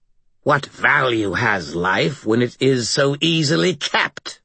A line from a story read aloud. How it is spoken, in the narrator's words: Mother Winter spat the last word